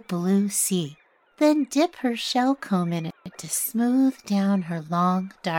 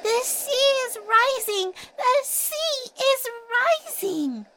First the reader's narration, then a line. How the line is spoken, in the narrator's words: little cried out to anyone who would listen